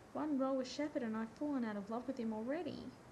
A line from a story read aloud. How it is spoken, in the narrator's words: Rodney cried